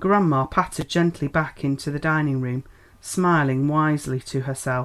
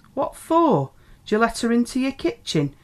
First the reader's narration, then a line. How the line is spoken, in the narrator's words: demanded the elder McMurtry indignantly